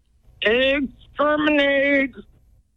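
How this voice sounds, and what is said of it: Dalek robot voice impression. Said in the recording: “your impression of a Dalek from Doctor Who ... that sounded like a Dalek with indigestion”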